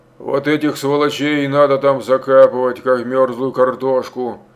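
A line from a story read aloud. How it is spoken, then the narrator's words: Grumbling. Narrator (Russian): заворчал Рукосуев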